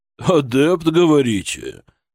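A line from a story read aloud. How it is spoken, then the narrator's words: Skeptical snort. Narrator (Russian): Преображенский хмыкнул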